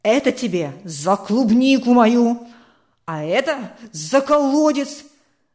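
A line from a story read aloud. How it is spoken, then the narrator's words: Angry gloating shouts. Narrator (Russian): Зло выкрикивал, зная, что за сироту некому заступиться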